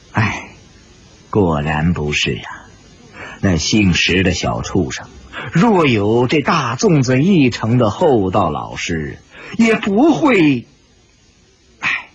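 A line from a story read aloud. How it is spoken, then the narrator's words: Amused sigh. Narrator (Chinese): 史婆婆不禁也感到好笑，叹了口气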